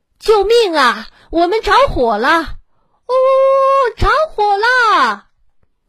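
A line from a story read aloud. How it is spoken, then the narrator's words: Rooster's sudden loud cry. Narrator (Chinese): 公鸡突然 大声叫道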